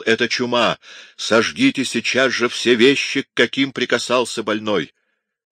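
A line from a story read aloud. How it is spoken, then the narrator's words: Shouted. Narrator (Russian): Доктор закричал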